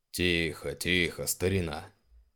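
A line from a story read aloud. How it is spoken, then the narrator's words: Good-natured boom. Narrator (Russian): Добродушно прогудел Шаус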